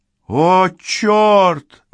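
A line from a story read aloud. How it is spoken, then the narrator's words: Exclaimed. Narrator (Russian): воскликнул Райм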